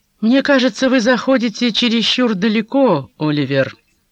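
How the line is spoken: Calm, firm objection. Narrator (Russian): возразил Кейто так же спокойно и решительно, как и раньше

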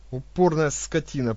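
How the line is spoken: Through gritted teeth. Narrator (Russian): процедил сын Ирбиса

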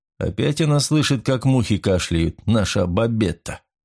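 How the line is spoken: Grumbling fireman. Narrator (Russian): проворчал пожарный

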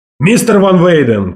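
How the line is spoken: Shout. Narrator (Russian): крикнул мне Волк Ларсон

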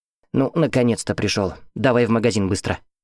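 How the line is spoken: Grumbling. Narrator (Russian): проворчала

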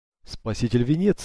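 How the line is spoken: Exclamation. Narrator (Russian): воскликнул

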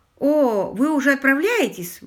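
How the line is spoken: Exclaiming. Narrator (Russian): воскликнул Уимзи

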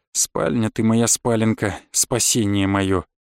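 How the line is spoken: Muttering. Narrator (Russian): пробормотал

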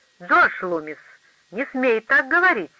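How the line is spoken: Sedate reply, then laughter. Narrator (Russian): степенно ответила Келли, но тут же засмеялась

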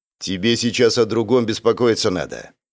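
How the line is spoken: Growling. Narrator (Russian): рыкнул дядя Вова

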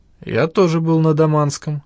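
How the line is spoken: Sad, smiling. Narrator (Russian): грустно улыбнулся бывший пограничник

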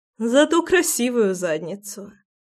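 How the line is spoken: Laughing. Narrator (Russian): хохотнула Руслана

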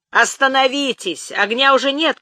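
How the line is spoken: Shouted. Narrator (Russian): крикнул Олег

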